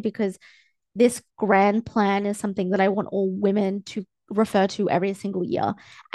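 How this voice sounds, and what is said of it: Teary, emotional voice. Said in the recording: “I'm smiling big... you can probably hear like I'm smiling big. I'm a little bit teary”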